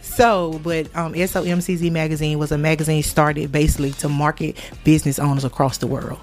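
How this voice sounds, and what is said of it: Southern US country accent. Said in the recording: “You're going to hear this country accent, okay? ... I'm country.”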